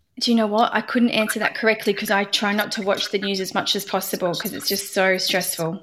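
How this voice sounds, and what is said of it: Australian accent. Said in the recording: “I love listening to an Australian accent though ... When I hear an Australian”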